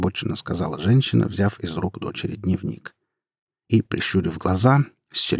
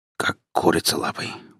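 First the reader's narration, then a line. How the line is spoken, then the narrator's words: Muttered. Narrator (Russian): буркнула она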